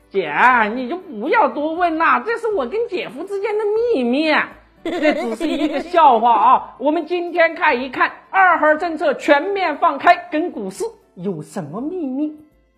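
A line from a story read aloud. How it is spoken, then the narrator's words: With an eerie smile. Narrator (Chinese): 我的小姨子很诡异的笑了一下，说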